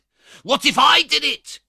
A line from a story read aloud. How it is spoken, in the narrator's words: cried Fagin, almost in a yell